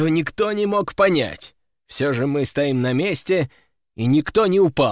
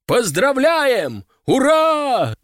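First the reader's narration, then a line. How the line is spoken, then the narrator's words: Crowd shouting cheers. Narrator (Russian): закричали на трибунах, услышав мое признание в поражении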